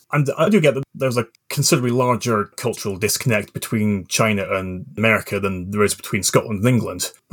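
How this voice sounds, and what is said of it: Mixed Scottish and English accent. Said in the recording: “I grew up in the Scottish borders with English parents, which, if anyone's ever wondered, is why my accent is all over the place.”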